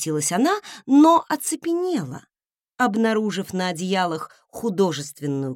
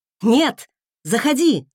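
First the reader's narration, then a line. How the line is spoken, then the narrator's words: Barked in unison. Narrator (Russian): рявкнули мы в один голос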